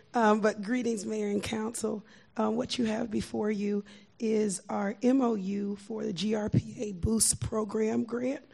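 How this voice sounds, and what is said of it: Slightly hoarse voice. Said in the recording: “My voice is a little hoarse today.”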